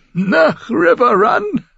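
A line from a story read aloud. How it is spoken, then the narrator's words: Giggling. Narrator (German): Er kicherte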